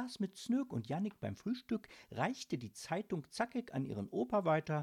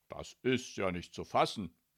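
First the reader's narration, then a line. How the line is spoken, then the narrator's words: Grumble. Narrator (German): brummte Jannik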